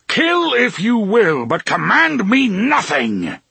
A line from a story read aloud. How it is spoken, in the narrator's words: the gunslinger roared